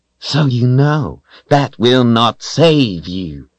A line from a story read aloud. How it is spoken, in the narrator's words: she snarled